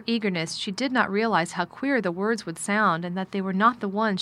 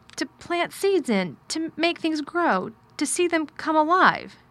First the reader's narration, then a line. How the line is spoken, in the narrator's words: Mary faltered